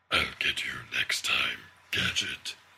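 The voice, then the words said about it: Constricted-throat cartoon villain voice. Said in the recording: “my Dr. Claw from Inspector Gadget impression ... I have to do my neck at a weird angle to get to sort of constrict the thing, the throat weirdly.”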